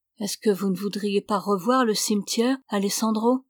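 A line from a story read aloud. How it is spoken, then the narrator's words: Timid question. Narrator (French): demanda Ramona timidement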